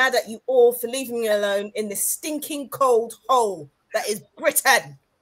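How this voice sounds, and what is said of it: Usual voice. Nothing is said of it.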